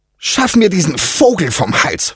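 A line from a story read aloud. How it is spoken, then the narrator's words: Persistent angry hiss. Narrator (German): fauchte sie unentwegt zu Diego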